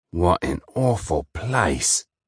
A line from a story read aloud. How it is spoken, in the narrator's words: he grumbled